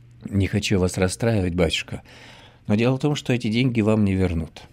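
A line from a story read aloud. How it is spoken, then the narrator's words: Sighing. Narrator (Russian): вздохнул Устинов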